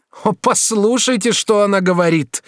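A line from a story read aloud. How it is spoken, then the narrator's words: Irritated exclamation. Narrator (Russian): воскликнула герцогиня, раздраженная ее самоуверенностью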